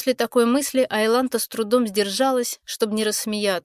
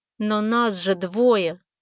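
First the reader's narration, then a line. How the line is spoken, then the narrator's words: Through gritted teeth. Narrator (Russian): сквозь зубы процедила девушка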